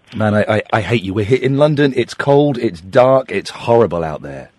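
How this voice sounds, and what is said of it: Strained voice, losing his voice. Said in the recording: “I'm hoping my voice will hold up for this interview because I'm kind of losing my voice.”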